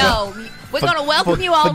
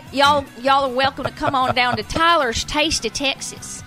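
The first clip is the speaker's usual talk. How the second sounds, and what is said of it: Put-on Western Texan accent. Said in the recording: “He doesn't know how to speak with a Western accent.”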